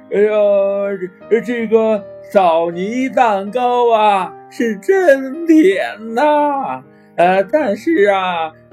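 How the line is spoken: Old woman, laughing. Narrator (Chinese): 鼹鼠奶奶笑着说

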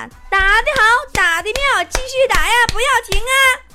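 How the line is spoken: Shouting. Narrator (Chinese): 喊

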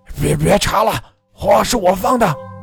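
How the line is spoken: Roaring. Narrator (Chinese): 眼看事情越闹越大，老火盆大吼道

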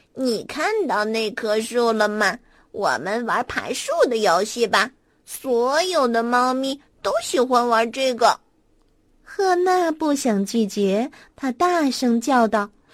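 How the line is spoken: Gentle cat voice. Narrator (Chinese): 小猫温柔的对赫娜说

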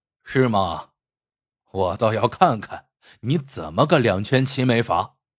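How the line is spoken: Cold sneer, big man. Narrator (Chinese): 铁塔大汉冷笑道

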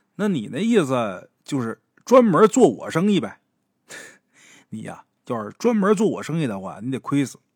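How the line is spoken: Laughing. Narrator (Chinese): 咱们鬼友也跟着笑啊，说

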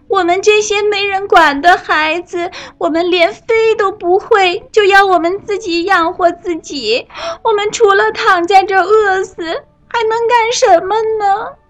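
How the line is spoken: Loud wailing young birds. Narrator (Chinese): 那些可怜的小乌鸦们大声的哭喊着

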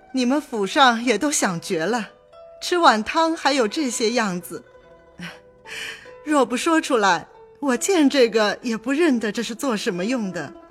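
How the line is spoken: Laughing. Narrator (Chinese): 因笑向贾母、王夫人道

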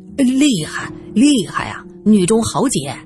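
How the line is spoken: Admiring. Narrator (Chinese): 胡局长赞叹道

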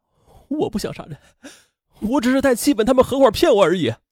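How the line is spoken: Sobbing bitterly. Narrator (Chinese): 在审讯中，秦兵痛哭道

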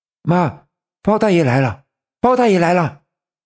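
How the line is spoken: Hurried shout. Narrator (Chinese): 连忙冲着屋子喊道

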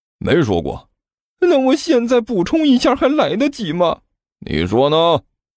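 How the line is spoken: Glum, tearful. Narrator (Chinese): 刘阿八哭丧着脸说道

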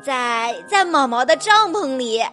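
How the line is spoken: Cheerful, grinning answer. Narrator (Chinese): 路马笑嘻嘻的回答

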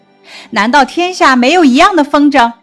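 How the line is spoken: Laughing. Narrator (Chinese): 紫娟笑道

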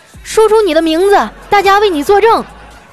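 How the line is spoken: Loud shout. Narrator (Chinese): 一眼镜男啊，大声的喊

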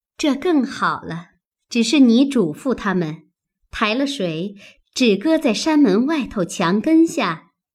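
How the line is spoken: Said with a laugh. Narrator (Chinese): 妙玉笑道

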